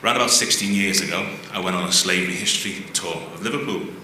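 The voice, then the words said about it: Liverpool accent. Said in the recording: “That's the city where I'm from, as the accent might suggest.”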